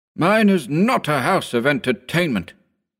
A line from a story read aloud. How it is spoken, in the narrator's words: said haughtily